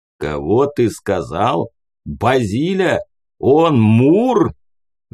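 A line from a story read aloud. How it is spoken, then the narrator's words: Thunderous roar. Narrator (Russian): Взревел леший так, что в лесу резко заткнулась вся живность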